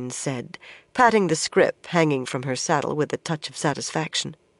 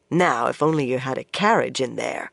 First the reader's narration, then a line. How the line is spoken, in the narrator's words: Swan grumbled